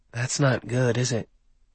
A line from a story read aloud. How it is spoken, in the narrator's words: Anna murmured